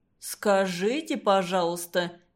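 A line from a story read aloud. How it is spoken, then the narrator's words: Vague drawl. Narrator (Russian): неопределенно протянул Самуил Григорьевич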